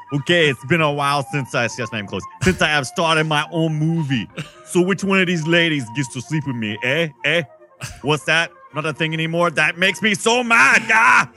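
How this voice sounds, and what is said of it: Arnold Schwarzenegger impression. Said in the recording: “my worst Arnold Schwarzenegger impression because I'm totally doing it cold”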